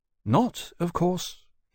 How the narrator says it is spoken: he said to Lawrence later, somewhat anxiously

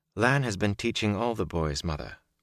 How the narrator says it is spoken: Moraine replied calmly

